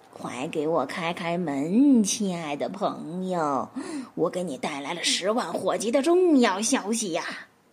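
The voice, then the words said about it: Lowered, sweet, pitiful voice. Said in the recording (Chinese): “尽量压低嗓子，用一种让人听了觉得既可亲又可怜的声音说”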